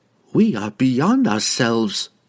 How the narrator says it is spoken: sighed

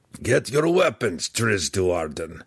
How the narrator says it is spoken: Belwar growled again

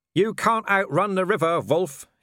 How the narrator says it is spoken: he shouted

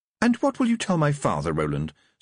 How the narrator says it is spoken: said Tiffany, sweetly

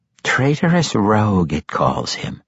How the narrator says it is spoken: Quenthel said softly

